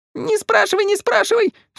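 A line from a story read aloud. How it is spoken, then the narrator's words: Sobbed, two voices. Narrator (Russian): всхлипнули Саша и Паша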